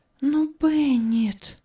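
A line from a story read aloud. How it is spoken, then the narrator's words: Trembling, strained voice. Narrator (Russian): С бледным лицом и дрожа от волнения выдавила Анна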